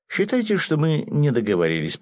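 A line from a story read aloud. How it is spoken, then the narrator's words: Theatrical sigh. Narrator (Russian): показушно вздохнул я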